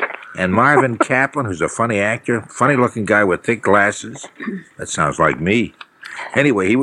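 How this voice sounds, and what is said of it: Usual voice. Nothing is said of it.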